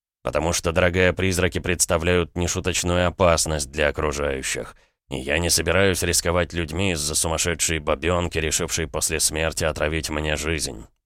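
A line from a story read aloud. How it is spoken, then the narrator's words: Said through gritted teeth. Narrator (Russian): процедил граф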